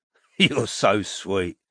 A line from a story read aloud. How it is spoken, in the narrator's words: said Morris, with a little laugh